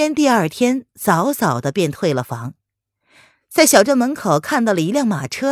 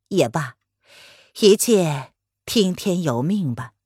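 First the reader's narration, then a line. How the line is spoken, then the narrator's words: Sighing old man. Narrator (Chinese): 老头子叹了口气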